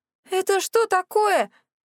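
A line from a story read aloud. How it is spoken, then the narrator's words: Wailing. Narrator (Russian): взвыла я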